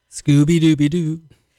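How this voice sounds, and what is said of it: Crooning singer impression. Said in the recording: “That was my Frank Sinatra imitation.”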